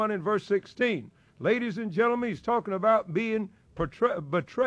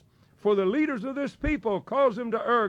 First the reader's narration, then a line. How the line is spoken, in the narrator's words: God said